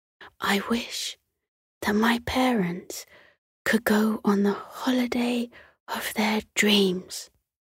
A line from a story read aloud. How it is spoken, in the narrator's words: she whispered